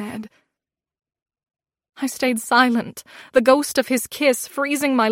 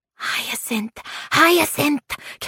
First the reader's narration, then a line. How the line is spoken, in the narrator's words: came the whisper from his fairies